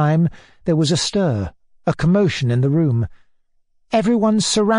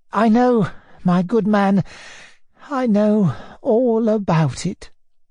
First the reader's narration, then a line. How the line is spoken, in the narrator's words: our exhausted hero answered in a weak, miserable voice